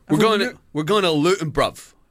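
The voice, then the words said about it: Imitated accent, dropped T's, American twang. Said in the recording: “accent as well, because I don't think anyone's ever heard any accent like it ... The most mental accent in the world ... there's no T's though ... It's got an American twang”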